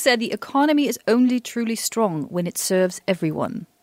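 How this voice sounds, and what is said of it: Attempted British accent. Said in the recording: “I can't really do a British accent. I love the accent. ... Very good accent.”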